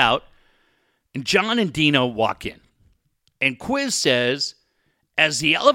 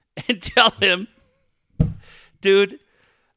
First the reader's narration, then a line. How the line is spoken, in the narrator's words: I laughed